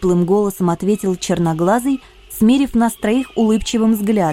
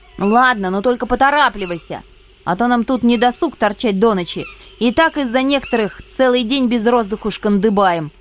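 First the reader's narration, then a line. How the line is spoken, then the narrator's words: Irritated blurt. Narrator (Russian): раздраженно брякнула я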